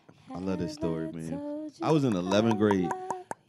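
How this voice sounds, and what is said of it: Deliberately deepened voice. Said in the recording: “Gotta get my deep voice on for this.”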